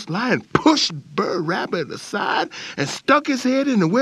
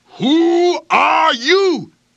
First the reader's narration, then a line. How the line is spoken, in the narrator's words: growled